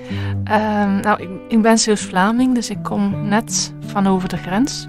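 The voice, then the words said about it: Light Dutch (Netherlands) accent. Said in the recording (Dutch): “ik hoor een licht eh, Nederlands accent”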